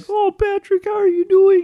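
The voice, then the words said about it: Impression of cartoon character voices. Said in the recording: “That's as good as my impression of those two characters.”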